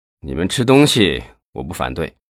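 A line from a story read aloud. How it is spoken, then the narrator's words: Resigned sigh. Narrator (Chinese): 叹了一口气说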